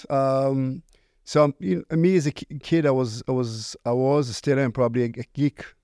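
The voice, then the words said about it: Israeli accent. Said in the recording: “originally I was born in Israel. Uh, you can probably hear it by, from my accent. Right. Accent.”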